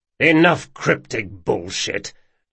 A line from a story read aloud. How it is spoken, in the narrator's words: Locke growled